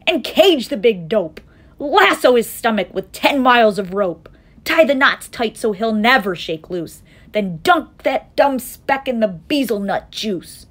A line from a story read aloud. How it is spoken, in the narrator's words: they shouted